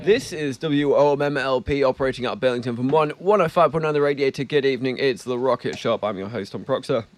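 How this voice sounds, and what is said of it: Hoarse, froggy throat. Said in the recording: “I've got a bit of a frog in my throat”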